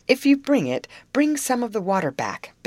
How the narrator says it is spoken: begged Mr

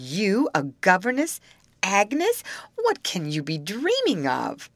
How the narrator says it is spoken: My sister in astonishment, exclaiming

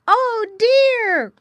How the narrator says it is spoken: cried all the little pigs, and they felt very badly

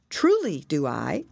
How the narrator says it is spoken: answered Pearl, looking brightly

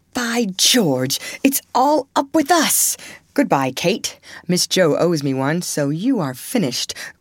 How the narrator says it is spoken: cried Fred excitedly

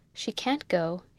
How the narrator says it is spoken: said

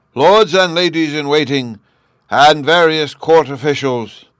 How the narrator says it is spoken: our guide gruffly remarked

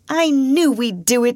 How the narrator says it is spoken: she cried

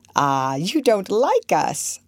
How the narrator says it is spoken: Archer exclaimed

